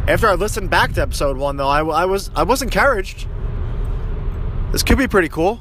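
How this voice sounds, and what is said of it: Heavy Philadelphia accent. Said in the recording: “the way that I speak ... that heavy Philly accent comes through”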